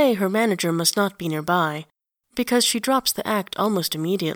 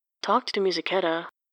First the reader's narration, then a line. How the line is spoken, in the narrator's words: says in an undertone